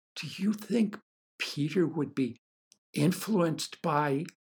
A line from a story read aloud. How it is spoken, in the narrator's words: In a small, hesitant, distracted voice, she asked